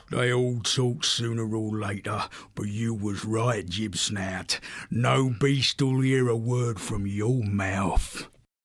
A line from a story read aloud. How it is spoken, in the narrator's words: muttering to himself